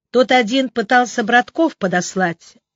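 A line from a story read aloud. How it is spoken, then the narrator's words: Angry. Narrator (Russian): сердито продолжала Алена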